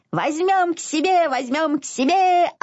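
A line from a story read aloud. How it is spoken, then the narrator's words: Piglet yelling loudly. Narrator (Russian): орал поросенок Изюмка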